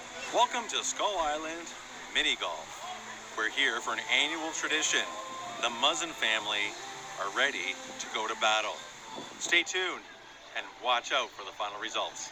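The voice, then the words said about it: Announcer-style voice. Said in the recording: “you got your announcer voice on”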